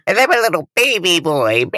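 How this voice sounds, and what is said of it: Baby voice. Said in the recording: “this is my baby voice”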